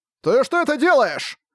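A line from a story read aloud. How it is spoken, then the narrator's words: Shouting. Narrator (Russian): прокричал Брэд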